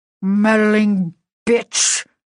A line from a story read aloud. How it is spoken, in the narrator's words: he snarled